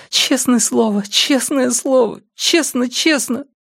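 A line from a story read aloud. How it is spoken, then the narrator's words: Sobbing boy. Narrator (Russian): Мальчик зарыдал, повторяя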